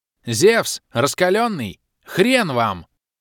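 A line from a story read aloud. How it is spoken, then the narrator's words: Angry yell. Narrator (Russian): Завопил злоба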